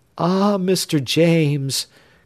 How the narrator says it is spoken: cried the young girl

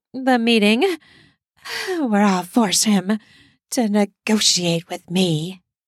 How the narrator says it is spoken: she says through her panting

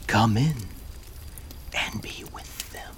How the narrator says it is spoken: Skeleton man whispered

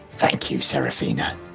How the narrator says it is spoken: Vanda whispers

